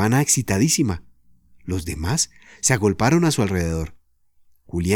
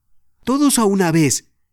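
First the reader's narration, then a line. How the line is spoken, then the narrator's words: Shouting. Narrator (Spanish): gritó Julián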